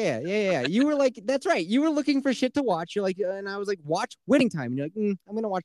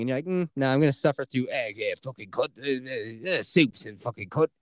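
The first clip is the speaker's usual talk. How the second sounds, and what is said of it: Impression of a TV character's voice. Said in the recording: “That's a good Butcher impression.”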